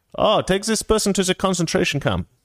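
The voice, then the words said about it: Put-on German accent. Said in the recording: “I can do that accent because I'm German”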